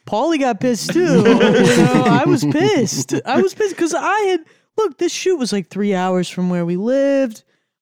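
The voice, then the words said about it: New York accent. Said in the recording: “What's this accent? ... New York? ... Born and raised.”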